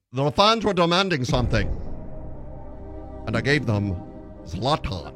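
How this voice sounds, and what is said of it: Bad attempt at Slavic accent. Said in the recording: “You got to have like a Slavic accent. You got to sell this. ... That is the worst ever.”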